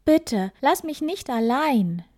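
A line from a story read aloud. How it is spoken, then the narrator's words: Calling out. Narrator (German): Er rief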